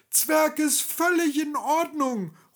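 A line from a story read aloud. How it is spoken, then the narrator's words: Dwarf calling soothingly. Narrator (German): ruft der Zwerg, macht ein versöhnliches Gesicht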